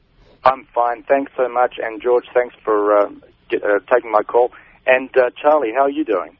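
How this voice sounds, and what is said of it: New Zealand accent. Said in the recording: “He's got a New Zealand accent.”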